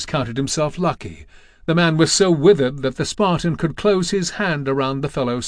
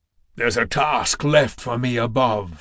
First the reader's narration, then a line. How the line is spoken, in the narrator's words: Kratos growled